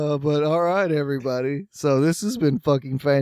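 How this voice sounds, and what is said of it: Usual voice. Nothing is said of it.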